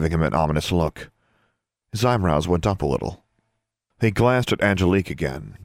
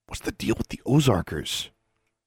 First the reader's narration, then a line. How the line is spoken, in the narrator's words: Leaning forward, he whispered